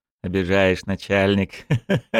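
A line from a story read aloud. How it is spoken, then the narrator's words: Chuckling. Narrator (Russian): хохотнул Якушев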